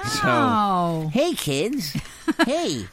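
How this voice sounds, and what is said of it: Imitates a cartoon character's voice. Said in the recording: “That's my bad SpongeBob impression. ... That's not really that bad, is it?”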